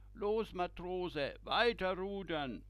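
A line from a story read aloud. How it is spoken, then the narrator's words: Captain calling out. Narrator (German): ruft Kapitän Muislini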